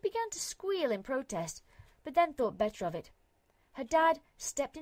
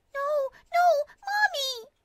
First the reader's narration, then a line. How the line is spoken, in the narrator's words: screaming the whole time